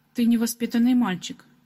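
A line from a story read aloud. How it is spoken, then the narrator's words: Woman's grumbling. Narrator (Russian): ворчал женский голос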